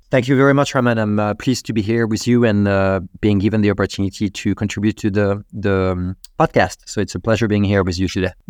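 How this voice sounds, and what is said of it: Wonderful foreign accent. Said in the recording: “your accent is wonderful to start off with ... when you have an accent like yours”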